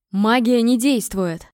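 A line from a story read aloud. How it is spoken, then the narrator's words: Grim shout. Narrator (Russian): крикнул магистр, и это прозвучало, как смертный приговор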